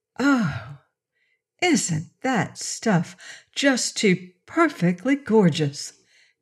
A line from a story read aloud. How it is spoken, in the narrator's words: Dorothy breathed